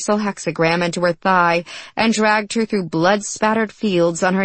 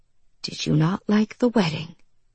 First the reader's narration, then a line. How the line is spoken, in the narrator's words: He whispered